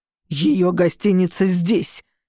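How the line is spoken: Growled. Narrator (Russian): прорычал Шон

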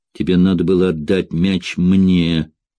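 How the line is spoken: Grumbling mutter. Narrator (Russian): буркнул

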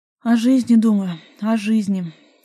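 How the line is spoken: Sighing reply. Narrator (Russian): ответил и вздохнул

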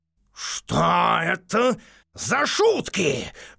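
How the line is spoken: Lion's roar. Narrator (Russian): взревел лев

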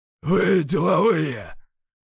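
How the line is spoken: Hoarse male bass. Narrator (Russian): прохрипел с порога мужской бас

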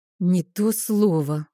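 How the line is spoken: Forced out, strained. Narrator (Russian): выдавила я из себя

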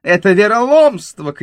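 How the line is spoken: Loud shouting. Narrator (Russian): кричал он на всю гостиницу

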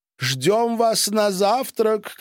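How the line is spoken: Shouted. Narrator (Russian): крикнула Пак

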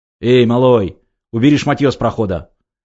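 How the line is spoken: Barked. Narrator (Russian): рявкнул один из них

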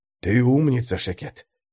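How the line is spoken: Fervent whisper. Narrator (Russian): горячо шептал он рядом

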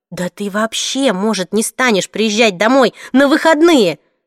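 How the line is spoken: Offended yell. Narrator (Russian): обиженно завопила я

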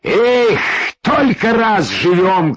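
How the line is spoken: Shout. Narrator (Russian): крикнул Капитоныч

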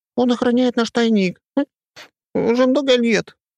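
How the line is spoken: Squeaky, tearful. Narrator (Russian): пропищал он в ответ и кая от слез

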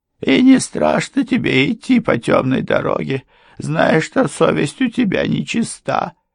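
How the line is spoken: Sobbing. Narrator (Russian): всхлипнула Мария

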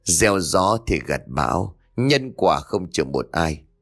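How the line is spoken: Sighing mutter. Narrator (Vietnamese): thở dài một tiếng rồi lẩm bẩm

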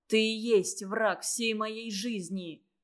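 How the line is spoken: Sullen mutter. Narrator (Russian): угрюмо буркнул

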